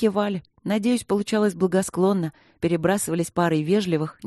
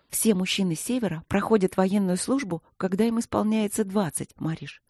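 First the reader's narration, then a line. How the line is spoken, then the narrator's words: Whispered reply. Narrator (Russian): шепотом ответила Василина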